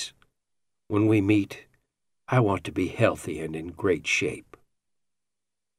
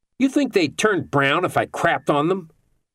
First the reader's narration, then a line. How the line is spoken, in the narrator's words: Sherlock yelled at Picasso